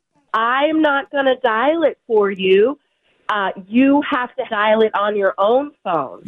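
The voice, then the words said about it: Shouting very loudly. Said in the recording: “You're shouting. Why are you shouting? ... You're very loud. ... Can you talk softer, please?”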